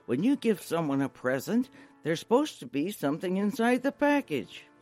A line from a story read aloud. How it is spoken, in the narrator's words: said harshly